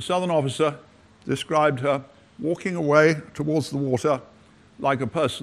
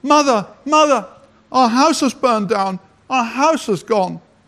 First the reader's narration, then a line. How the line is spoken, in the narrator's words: she cried